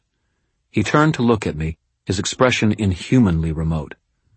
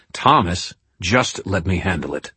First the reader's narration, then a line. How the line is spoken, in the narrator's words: he said, his voice hard